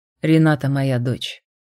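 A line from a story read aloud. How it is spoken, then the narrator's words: Dry, curt. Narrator (Russian): сухо сказал он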